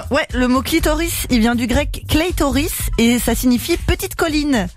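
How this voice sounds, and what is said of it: French speech with English accent. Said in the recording (French): “T'as pas besoin de prendre un accent anglais quand tu parles grec.”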